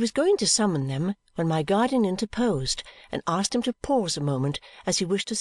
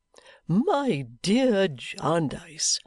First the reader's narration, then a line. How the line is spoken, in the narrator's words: he cheerfully replied